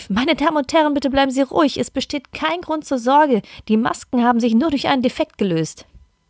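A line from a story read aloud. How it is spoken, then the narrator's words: Woman calling out. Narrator (German): eine Stewardess rief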